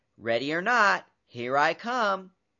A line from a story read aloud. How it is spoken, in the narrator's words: The princess counted to 10, then shouted